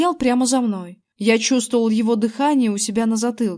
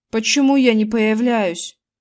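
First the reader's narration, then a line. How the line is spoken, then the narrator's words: Plain. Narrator (Russian): спросил Зак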